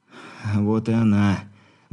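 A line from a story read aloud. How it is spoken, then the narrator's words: Relieved sigh through pain. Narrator (Russian): кривясь от боли, облегченно вздохнул шаман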